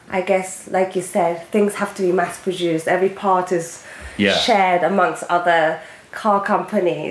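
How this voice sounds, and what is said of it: Heavy British accent. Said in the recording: “You obviously have a heavy British accent”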